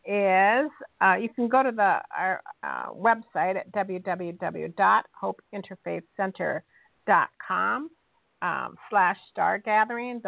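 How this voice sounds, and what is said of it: Speaking very slowly. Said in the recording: “I'll say this very slowly,”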